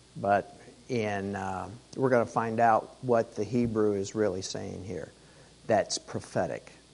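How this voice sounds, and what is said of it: Strained, fading voice. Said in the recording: “sorry, my voice. I'm losing my voice. Started last night ... yelling.”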